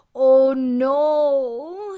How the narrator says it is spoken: he moaned

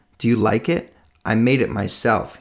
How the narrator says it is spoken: he said

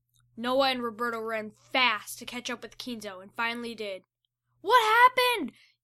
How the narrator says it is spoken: yelled Noah to Kinzo

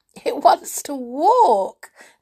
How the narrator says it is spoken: said Beth with a scream of laughter

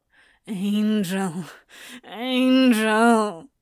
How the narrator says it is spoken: whined

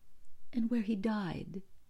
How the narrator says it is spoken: added quietly

